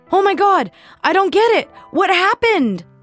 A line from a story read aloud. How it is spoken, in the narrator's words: yelled